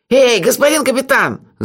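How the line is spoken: Yelling. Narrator (Russian): заорал Мелифара

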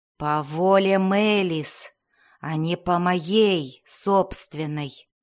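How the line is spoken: Moaning. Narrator (Russian): простонал Закнофейн

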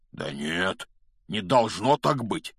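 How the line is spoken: Trembling objection. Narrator (Russian): возразил Хагрид дрожащим голосом

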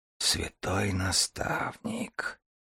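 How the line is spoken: Awed whisper. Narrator (Russian): прошептал Дар, завороженный зрелищем

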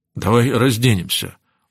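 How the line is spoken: Hoarse suggestion. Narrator (Russian): предложил Рон хриплым голосом

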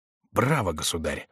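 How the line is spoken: Whispered. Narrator (Russian): прошептал Шико

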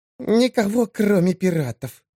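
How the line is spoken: Hissing. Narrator (Russian): зашипела птичья

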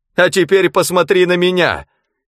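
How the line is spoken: Shout. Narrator (Russian): крикнул он

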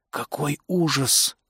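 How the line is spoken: Whisper. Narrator (Russian): прошептал Дуглас

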